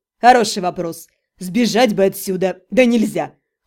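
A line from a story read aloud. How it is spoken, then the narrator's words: Snorting. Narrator (Russian): Хмыкнул Ремир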